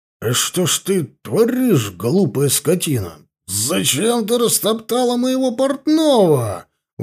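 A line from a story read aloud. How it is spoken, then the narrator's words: Indignant drunken yell. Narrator (Russian): Возмущенно заорал я пьяным голосом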